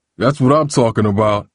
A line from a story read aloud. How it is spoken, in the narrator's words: Steve boomed